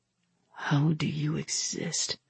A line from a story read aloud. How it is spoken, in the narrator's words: He asked quietly